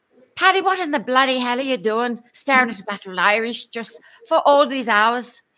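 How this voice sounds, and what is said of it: Put-on Irish accent. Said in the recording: “That's a great Irish accent,”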